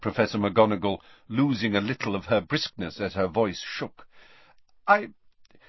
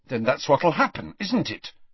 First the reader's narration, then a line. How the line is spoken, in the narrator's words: said Harry fiercely